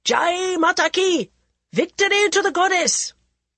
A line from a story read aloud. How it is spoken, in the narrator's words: Major Veer Singh shouting the war cry of the Rajputs